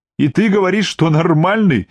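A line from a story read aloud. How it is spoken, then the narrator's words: Girl's emotional exclamation. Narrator (Russian): С чувством воскликнула девушка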